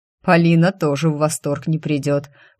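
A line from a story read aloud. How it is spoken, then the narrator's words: Grumbling. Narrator (Russian): проворчал Генрих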